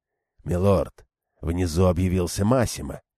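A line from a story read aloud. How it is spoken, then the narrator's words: Quiet. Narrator (Russian): тихо сообщил он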